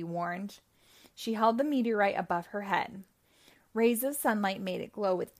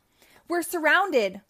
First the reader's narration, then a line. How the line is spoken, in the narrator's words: Wonder Woman shouted